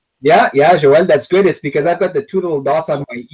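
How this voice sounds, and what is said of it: Non-American accent. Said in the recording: “if you didn't notice the accent, he pronounced his name so beautifully ... I love the accent”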